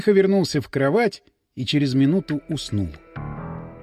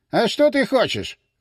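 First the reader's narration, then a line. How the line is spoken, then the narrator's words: Boss's exclamation. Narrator (Russian): воскликнул начальник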